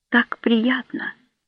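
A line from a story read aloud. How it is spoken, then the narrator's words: Murmuring. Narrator (Russian): пробормотала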